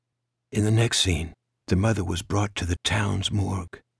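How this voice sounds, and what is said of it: Usual voice. Nothing is said of it.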